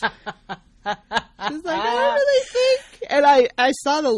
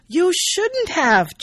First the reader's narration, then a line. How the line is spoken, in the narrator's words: exclaims